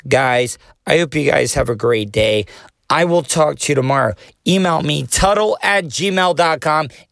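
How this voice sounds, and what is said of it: Hoarse, worn-out voice. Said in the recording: “I'm starting to lose my voice ... my voice is shot. I've been talking to too many people on the phone”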